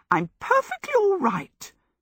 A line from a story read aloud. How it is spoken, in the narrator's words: Sophie said indignantly